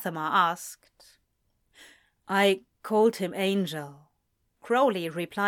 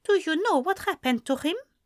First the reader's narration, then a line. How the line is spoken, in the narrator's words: Anathema asked kindly